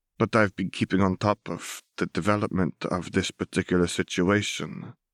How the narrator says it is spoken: he chuckled softly

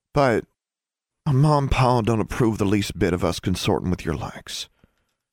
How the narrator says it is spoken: Forbearance sighed

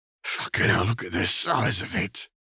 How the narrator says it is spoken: Gilbert choked

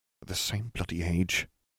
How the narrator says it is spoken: Harry muttered

